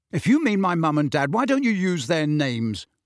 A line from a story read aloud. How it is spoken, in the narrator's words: said Harry loudly